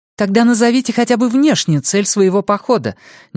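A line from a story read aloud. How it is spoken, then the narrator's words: Suddenly sharp. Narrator (Russian): неожиданно резко говорит Ники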